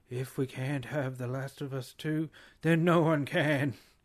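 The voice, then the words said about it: Imitates another person's voice. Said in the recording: “terrible Trump impersonation”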